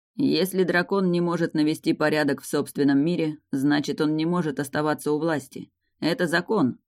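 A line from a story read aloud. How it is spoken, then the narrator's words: Gloomy statement. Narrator (Russian): мрачно произнес Эйрин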